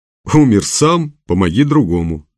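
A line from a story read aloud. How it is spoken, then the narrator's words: Laughing. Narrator (Russian): засмеялся председатель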